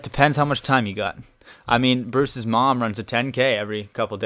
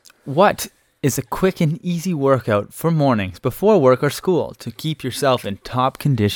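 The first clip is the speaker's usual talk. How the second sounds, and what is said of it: Smooth radio announcer voice. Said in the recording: “That was a nice radio voice, actually.”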